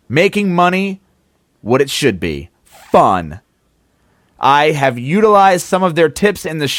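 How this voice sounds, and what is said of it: Usual voice. Nothing is said of it.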